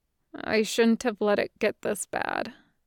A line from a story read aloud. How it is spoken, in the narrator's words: mumbled